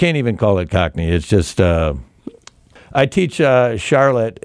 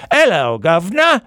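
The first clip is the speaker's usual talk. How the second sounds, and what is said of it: Exaggerated Dick Van Dyke Cockney. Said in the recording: “the English accent ... the exaggerated Dick Van Dyke ... the Cockney English accent from Mary Poppins”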